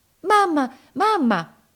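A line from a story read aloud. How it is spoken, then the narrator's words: Anxious shout. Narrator (Italian): gridò ansiosa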